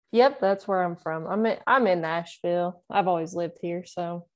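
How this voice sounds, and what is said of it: Southern Tennessee accent with twang. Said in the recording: “the accent gives you away, right? A little bit. ... sometimes people ask if I'm from Alabama ... Is there an Alabama twang? ... Apparently my accent's just a little more present.”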